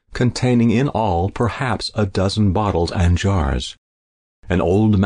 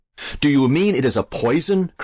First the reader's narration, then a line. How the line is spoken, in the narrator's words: cried Alan, very much horrified